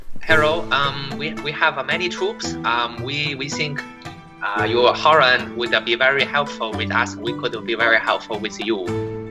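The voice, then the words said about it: Put-on Chinese accent. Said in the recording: “speak in a Chinese accent”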